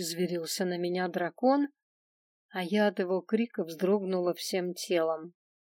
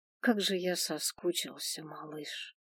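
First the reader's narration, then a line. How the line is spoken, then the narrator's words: Soft whisper. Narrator (Russian): прошептал тихо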